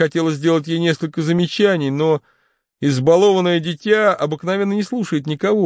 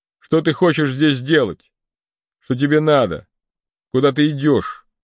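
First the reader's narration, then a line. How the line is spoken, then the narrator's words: Dry question, old man. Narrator (Russian): сухо спросил ее старик Январь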